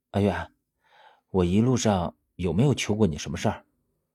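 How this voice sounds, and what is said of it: Quiet, hushed speaking voice. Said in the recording (Chinese): “小声的和我说”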